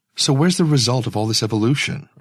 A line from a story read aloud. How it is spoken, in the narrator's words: Ursula said quickly